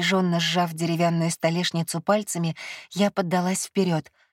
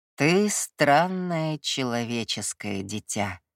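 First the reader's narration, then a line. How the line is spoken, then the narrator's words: Drawling. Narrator (Russian): протянул он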